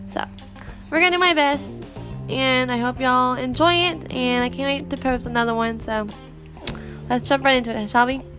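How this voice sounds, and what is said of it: Nasal, congested voice. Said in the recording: “I might sneeze and cough a little bit. I have some kind of sinus infection going on... I have a cold coming on, so I might sound nasally.”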